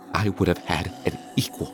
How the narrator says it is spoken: she said softly, on the verge of tears

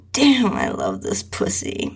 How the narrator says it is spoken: He moaned

